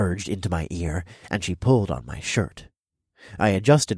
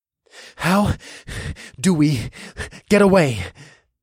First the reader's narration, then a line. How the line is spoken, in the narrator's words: I gasped out between frantic leg pumps